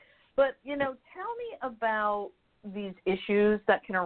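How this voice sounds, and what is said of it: Usual voice. Nothing is said of it.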